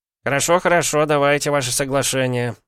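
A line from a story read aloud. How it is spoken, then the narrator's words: Grumbled. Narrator (Russian): пробурчал Досков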